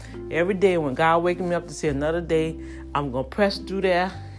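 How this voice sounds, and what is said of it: Breathless, out-of-breath speech. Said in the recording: “I'm sounding like I'm out of breath”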